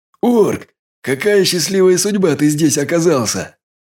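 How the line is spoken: Relieved exhale. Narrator (Russian): Я, наконец, выдохнул

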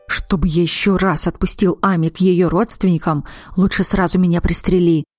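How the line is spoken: Grumbling. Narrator (Russian): ворчал Захар

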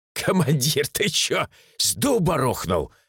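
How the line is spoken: Blurted after laughing. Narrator (Russian): отсмеявшись, выпалил Михич

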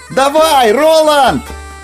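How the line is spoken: Shouted. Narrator (Russian): выкрикнул Катберт

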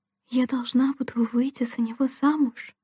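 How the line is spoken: Whispered question. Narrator (Russian): шепотом спросила Делла

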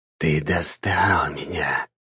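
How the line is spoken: Whisper. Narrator (Russian): прошептал он

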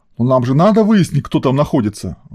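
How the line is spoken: Indignant mutter. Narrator (Russian): возмущенно пробурчал полковник

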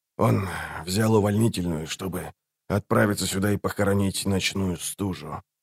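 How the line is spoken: Quiet. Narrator (Russian): тихо добавил он

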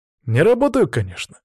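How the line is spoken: Cheerful. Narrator (Russian): весело подтвердил

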